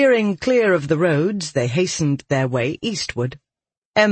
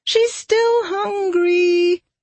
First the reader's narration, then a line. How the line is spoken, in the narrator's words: Marrow whined